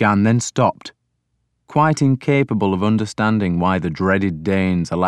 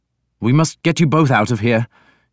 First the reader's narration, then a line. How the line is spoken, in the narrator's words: he said urgently